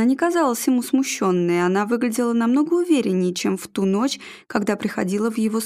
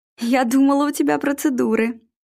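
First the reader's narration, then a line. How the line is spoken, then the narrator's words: Laughing. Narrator (Russian): Вера засмеялась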